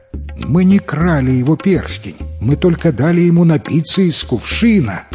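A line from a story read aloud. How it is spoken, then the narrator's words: Girls exclaiming in chorus. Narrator (Russian): хором воскликнули девушки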